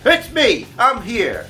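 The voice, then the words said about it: Yelling. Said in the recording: “I'm yelling”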